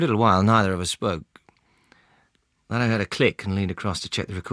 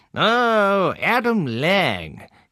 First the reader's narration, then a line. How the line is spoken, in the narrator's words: he drawled, performing a pitch-perfect caricature of an upper-class Englishman